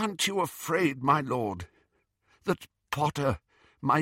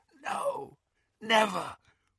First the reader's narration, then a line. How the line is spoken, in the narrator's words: whispered Malfoy